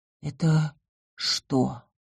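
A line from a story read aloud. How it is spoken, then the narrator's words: Hoarse question. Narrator (Russian): хрипло уточнила я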